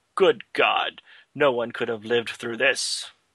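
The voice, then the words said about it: Impression of Dr. McCoy. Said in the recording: “great McCoy impression”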